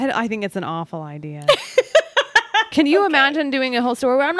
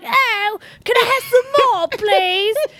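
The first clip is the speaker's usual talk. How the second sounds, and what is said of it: Weak put-on Cockney accent. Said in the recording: “The only thing that I'm good at is the Cockney accent, which is like the poor people. ... it's not even good”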